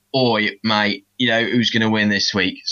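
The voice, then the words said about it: Bad put-on Cockney accent. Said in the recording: “Bad Cockney accent. I do apologise.”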